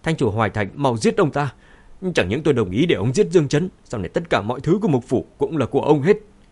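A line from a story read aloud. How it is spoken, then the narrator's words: Shouting. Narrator (Vietnamese): Khương Nham hét lên với Thành chủ Hoài Thành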